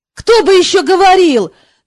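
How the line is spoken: Indignant exclamation. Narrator (Russian): негодующе воскликнул он

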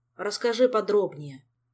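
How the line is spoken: Sad request. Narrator (Russian): грустно попросил он

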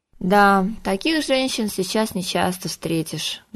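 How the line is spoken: Sad agreement. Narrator (Russian): грустно согласился Виктор

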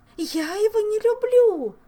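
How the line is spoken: Screaming woman. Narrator (Russian): закричала виконтесса

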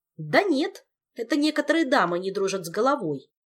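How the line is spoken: Irritated reply. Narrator (Russian): раздраженно отозвался Мафей

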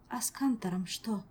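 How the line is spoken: Quiet question. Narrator (Russian): тихо спросила Азель

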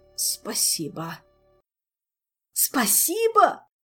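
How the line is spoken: Grieving wail. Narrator (Russian): Горестно взвыл хозяин

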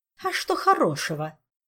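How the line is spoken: Angry snort. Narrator (Russian): все так же сердито фыркнула Донья Исидора

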